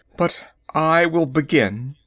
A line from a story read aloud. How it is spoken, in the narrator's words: he added with a bitter laugh